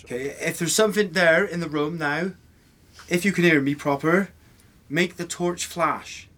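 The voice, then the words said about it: Put-on West Country accent. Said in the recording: “Try and talk in a West Country accent. ... Oh, that was proper Bedminster. ... Not bad. That was good, wasn't it?”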